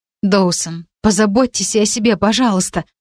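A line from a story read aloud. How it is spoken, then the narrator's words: Anxious pleading. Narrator (Russian): взмолилась, плохо скрывая тревогу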